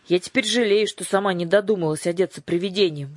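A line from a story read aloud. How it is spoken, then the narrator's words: Grumbling. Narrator (Russian): ворчала Дара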